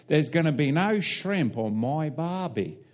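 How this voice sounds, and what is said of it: Put-on Australian accent. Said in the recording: “That's my Australian accent for you.”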